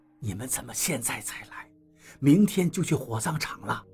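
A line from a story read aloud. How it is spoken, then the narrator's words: Soft complaint. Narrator (Chinese): 刘院长轻声埋怨道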